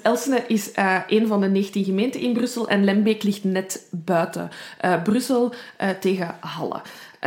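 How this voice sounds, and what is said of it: Brussels accent, rolling R. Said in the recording (Dutch): “mijn rollende R. ... mijn Brussels accent”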